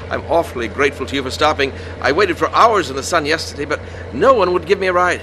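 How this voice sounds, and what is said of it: English accent. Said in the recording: “England, originally. ... I knew that wasn't no Texas accent”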